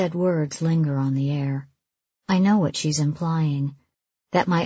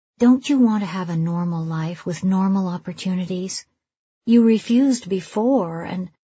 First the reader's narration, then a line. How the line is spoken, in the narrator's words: she sighs